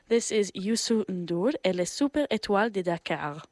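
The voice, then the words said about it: Deliberately bad French accent. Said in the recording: “my really bad French accent.”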